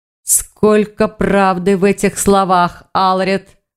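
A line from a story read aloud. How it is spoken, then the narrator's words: Growl. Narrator (Russian): прорычал Грифон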